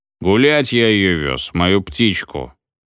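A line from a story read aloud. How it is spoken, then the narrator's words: Unctuous voice. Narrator (Russian): елейным голосом отозвался Банкин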